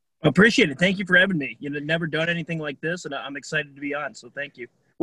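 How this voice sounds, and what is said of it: Polished radio-style voice. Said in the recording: “you've already got the radio voice. It's there. I can hear it”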